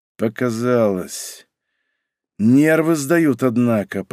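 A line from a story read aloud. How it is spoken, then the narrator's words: Through gritted teeth. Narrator (Russian): процедил сквозь зубы Павел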